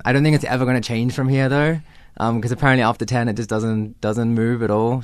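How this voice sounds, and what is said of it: Mixed South African-Australian accent. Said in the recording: “I'm born in Johannesburg, but um, when I was eight, I moved to Australia ... that's why I have a bit of a confused accent”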